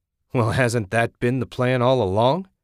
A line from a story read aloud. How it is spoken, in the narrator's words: Jack laughed